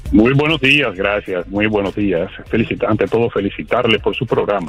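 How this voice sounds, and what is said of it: Announcer-style radio voice. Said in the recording (Spanish): “con esa voz de locutor.”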